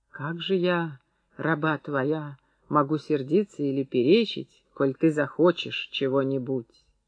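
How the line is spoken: Barely audible whisper. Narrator (Russian): Серафима прошептала еле слышно

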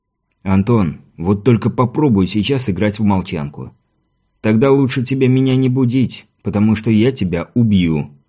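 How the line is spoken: Quiet. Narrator (Russian): тихо произнес Шейранов

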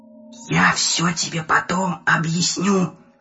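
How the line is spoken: Whispered. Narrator (Russian): прошептал Приз

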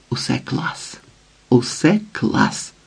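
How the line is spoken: Excited whisper. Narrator (Ukrainian): шепотів збуджено

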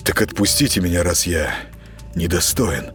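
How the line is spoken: Muttering. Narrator (Russian): пробормотал Сергей

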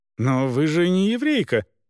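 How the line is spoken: Exclaimed. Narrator (Russian): воскликнул он

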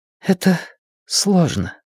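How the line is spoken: Quiet. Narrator (Russian): по-прежнему тихо сказала Надин

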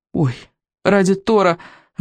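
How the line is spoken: Breathless exclamation. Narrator (Russian): выдохнул Рыбьенок

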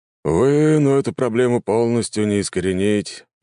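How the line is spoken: Sigh. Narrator (Russian): вздохнул мужчина

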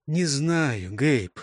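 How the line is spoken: Sighing. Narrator (Russian): вздохнул Джонас

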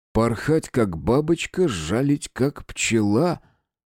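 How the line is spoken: Stunned whisper. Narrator (Russian): потрясенно прошептал я

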